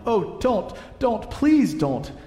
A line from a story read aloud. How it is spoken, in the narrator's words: shouted Edmund